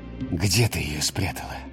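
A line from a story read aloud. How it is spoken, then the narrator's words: Quiet question from father. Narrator (Russian): тихо спросил отец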